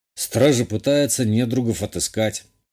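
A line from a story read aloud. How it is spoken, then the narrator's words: Muttered. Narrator (Russian): буркнул я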